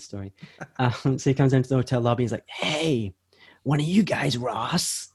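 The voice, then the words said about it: Bad husky-voiced impression of Tyler. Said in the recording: “he's got this really husky voice, and I'm going to do a really bad impression”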